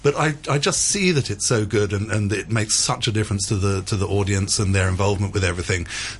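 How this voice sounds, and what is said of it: English accent. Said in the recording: “my wonderful English accent”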